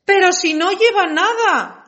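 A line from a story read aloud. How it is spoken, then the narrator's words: Crowd shouting. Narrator (Spanish): gritó al fin el pueblo entero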